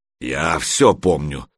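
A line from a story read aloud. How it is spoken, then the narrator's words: Deep bass voice. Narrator (Russian): пробасил маленький тролль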